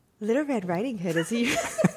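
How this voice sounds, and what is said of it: Squeaky, higher-pitched sexy operator voice. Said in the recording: “in a sexy operator voice? ... Why does sexy mean like squeakier? Like, you go up.”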